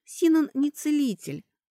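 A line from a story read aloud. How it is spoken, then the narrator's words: Sighing. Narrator (Russian): вздохнула Кэтри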